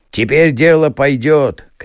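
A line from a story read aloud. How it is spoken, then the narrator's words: Men shouting together. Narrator (Russian): кричали мужики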